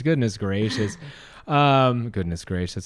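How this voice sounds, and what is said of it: Prim choir boy voice. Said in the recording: “I sound like a little choir boy.”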